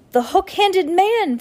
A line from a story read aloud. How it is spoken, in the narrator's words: Violet shouted